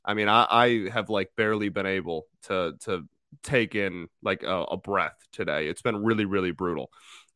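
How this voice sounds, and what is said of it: Nasal, congested voice. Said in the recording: “I sound a little nasally,... my allergies have kicked my ass. So if I sound like garbage”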